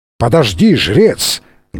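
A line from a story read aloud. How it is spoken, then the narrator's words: Thunderous yell. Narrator (Russian): громовым голосом заорал Фрэнсис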